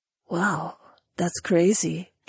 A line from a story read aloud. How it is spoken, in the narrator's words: Jessamine muttered